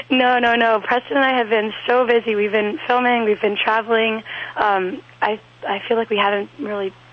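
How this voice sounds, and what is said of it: Hoarse, croaky lost voice. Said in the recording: “as you can tell, I've lost my voice... I sound like a frog... he thought it was just a sexy voice”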